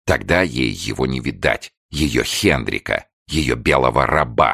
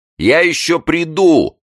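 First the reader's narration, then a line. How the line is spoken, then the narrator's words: Shout. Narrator (Russian): кричала она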